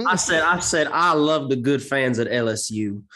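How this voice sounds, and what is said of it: Imitates another person's put-on accent. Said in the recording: “How do we feel about Brian Kelly's new accent? ... Brian Kelly just auditioning for Knives Out 2”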